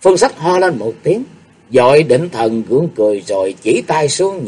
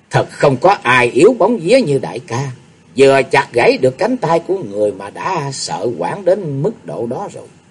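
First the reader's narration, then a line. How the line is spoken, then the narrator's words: Pouting sneer. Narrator (Vietnamese): nàng ta đã chẩu môi cười khẩy rồi nói tiếp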